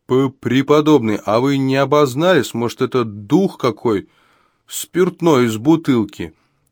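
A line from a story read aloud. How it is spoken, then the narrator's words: Shouted out. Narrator (Russian): выкрикнул Горацио Ливер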